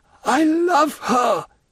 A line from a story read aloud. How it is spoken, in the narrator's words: cried Morel, groaning with sorrow